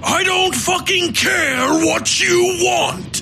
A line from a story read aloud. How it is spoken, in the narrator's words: Tolliver shouted